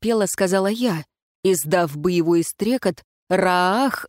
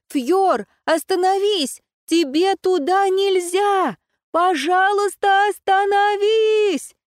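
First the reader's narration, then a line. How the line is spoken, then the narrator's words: Shouting. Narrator (Russian): кричала я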